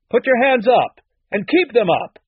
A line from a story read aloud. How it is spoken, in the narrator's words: someone shouted from downstairs